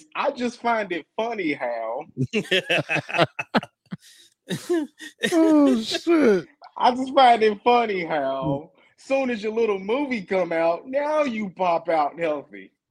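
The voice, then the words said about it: Put-on black girl voice. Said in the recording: “in my black girl voice”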